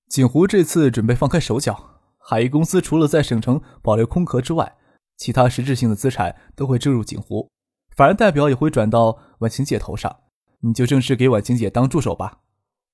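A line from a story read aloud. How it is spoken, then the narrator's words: Smiling. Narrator (Chinese): 张克笑着说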